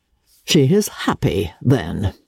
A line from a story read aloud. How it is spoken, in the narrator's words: said her father dryly